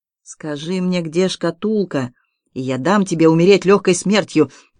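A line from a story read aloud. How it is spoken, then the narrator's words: Through gritted teeth. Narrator (Russian): процедил убийца сквозь зубы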